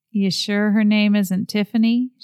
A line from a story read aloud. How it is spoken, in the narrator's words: She asked dryly